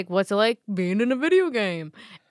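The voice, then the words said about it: Imitates another person's voice. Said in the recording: “Great Jeff Keeley impression”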